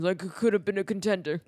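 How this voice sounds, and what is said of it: Imitates another person's voice. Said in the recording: “Marlon Brando, that impression.”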